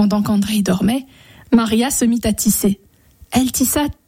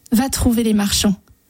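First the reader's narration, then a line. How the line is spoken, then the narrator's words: Plain. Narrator (French): dit-elle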